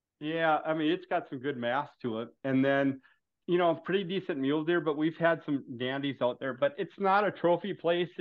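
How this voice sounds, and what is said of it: Strong Minnesota accent. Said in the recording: “you can't tell from my accent then ... It was either like that or Fargo up in here, or Canada ... You got a stronger accent than Canadians”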